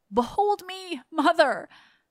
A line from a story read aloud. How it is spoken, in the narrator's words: he cried